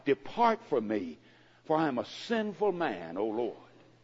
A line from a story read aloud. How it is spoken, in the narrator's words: he cried